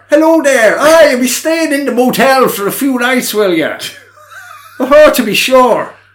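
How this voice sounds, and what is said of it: Exaggerated bad Irish accent. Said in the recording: “he does kind of lay on that kind of Irish accent ... Oh, that's terrible, his Irish accent ... Yeah, that was bad ... pretty indicative of how bad his Irish accent was”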